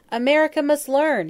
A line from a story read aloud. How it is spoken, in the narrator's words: he wailed